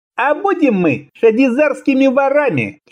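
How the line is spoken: Unctuous cooing. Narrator (Russian): все так же елейно проворковал Шишилам

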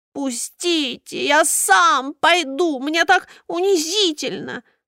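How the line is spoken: Groaning, humiliated. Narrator (Russian): стонал забинтованный пудель

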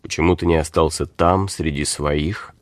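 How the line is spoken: Quiet, familiar question. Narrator (Russian): Багунке спросил негромко, будто продолжал давний разговор

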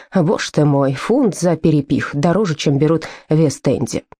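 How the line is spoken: Grumbling. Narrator (Russian): Фред все равно проворчал

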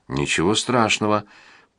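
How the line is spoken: Tearful. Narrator (Russian): проговорила она, наконец, сквозь слезы

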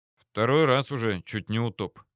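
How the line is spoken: Thoughtful mutter. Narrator (Russian): задумчиво пробормотал

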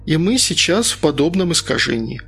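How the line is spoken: Sighing. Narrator (Russian): вздохнула Инга

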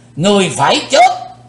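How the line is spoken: Thunderous roar. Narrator (Vietnamese): lão thủ tịch hộ pháp gầm tợ sấm

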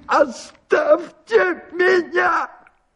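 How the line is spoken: Strained, trembling shout. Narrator (Russian): крикнул он не своим голосом, багровея и дрожа всем телом

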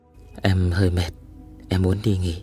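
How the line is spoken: Soft speech. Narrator (Vietnamese): Vì cất tiếng khẽ nói

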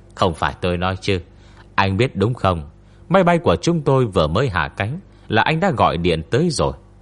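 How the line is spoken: Smiling, over the phone. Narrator (Vietnamese): Tôn Mập mỉm cười với anh Trịnh trong điện thoại

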